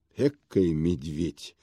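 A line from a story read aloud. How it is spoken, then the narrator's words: Mutter. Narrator (Russian): пробормотал ему вслед главный конторщик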